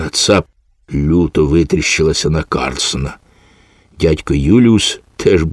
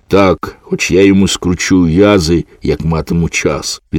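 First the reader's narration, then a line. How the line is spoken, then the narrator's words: Plain. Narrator (Ukrainian): відповіла панна Цап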